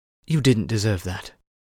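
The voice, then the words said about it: Hushed, quiet speech. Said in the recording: “in a hushed voice”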